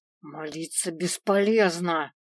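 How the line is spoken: Growl close to ear. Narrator (Russian): прорычал мне в шею Свен

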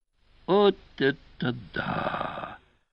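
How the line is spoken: Whispered exclamation. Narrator (Russian): шепотом воскликнул Певер

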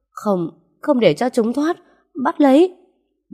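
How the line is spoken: Wounded broken scream. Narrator (Vietnamese): cô gái chỉ kịp ngã người xuống, hai tay ôm lấy bụng rồi hét lên ngắt quãng

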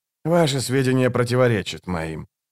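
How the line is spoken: Cold objection. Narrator (Russian): холодно возразил Барук

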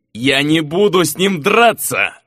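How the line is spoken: Furious roar. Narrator (Russian): раздувая ноздри, взревел де Каэло

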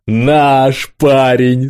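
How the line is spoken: Tearful groan. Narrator (Russian): смахивая выступающие слезы из глаз, простонал старший смены

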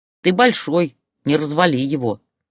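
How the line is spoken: Stern child. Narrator (Russian): строго погрозил пальчиком мальчишка

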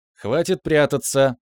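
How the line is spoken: Cheerful declaration. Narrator (Russian): весело заявил

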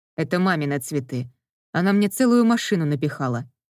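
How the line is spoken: Grumbling. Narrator (Russian): пробурчал

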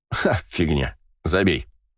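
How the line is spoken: Laughing dismissal. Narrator (Russian): смеясь отмахнулся я

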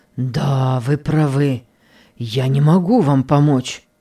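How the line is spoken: Moaning. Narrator (Russian): простонал господин Генрих

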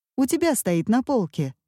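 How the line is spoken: Casual everyday tone. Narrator (Russian): ответила Катя будничным тоном, как будто каждый вечер в 11 ей звонят и спрашивают про колокольчики

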